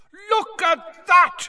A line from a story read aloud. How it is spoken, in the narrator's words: Bagman was yelling